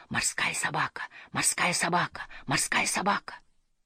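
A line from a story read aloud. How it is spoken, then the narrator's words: Many frightened whispering voices. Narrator (Russian): Казалось, тысячи испуганных голосов шептали снова и снова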